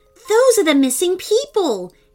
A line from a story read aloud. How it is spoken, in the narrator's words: he exclaimed excitedly